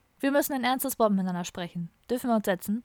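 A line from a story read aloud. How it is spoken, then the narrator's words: Plain question. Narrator (German): fragte Müller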